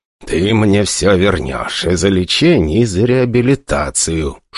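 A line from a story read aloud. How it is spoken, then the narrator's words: Hostile hiss, father. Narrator (Russian): шипел наш папашка с практически неприкрытой враждебностью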